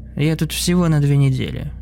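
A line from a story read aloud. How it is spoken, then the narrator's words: Gloomy reply. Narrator (Russian): мрачно ответил я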